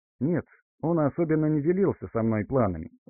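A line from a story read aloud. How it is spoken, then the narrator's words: Thoughtful, smiling. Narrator (Russian): задумчиво улыбнулась Арина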